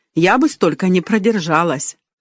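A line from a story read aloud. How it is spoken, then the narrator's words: Enthusiastic suggestion. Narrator (Russian): воодушевленно предложила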